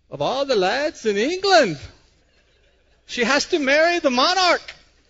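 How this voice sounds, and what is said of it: A not-so-great put-on accent. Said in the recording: “My accent wasn't so great, was it?”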